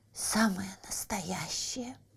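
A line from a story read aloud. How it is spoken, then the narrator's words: Whisper. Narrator (Russian): прошептал Еня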